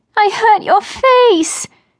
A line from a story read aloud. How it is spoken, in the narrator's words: wailed